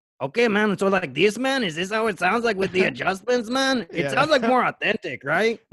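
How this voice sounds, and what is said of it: Put-on Mexican accent. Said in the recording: “white voices with slight accents ... maybe it's more like a southern Mexican thing ... Yeah, that's pretty good.”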